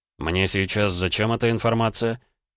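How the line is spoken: Clipped, through teeth. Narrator (Russian): Процедил Гаранин

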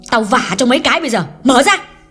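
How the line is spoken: Loud angry shout. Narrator (Vietnamese): Hương quát lớn

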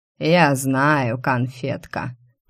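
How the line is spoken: Drawled. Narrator (Russian): протянул он

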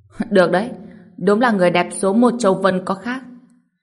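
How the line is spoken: Loud laughing voice. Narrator (Vietnamese): Anh cười lớn nói

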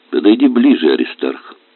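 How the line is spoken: Calm. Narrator (Russian): сказала спокойно бабушка Полина

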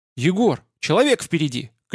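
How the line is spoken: Shouted. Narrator (Russian): крикнула Одинцова

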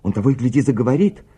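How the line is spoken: Exclaimed. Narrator (Russian): воскликнула Бет

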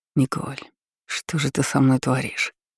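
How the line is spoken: Whisper. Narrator (Russian): прошептал Эрик

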